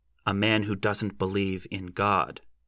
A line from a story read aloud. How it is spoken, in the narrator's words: said firmly